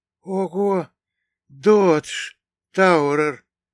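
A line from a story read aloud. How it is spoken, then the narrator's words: Admiring drawl. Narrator (Russian): протянул Патрик восхищенным голосом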